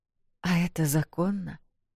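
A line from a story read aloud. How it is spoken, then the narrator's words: Quiet question. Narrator (Russian): спросила тихо Вэл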